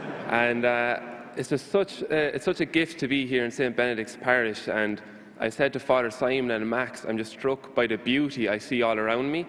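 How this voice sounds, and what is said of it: Irish accent. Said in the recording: “as you can probably tell from my accent, I'm from Ireland.”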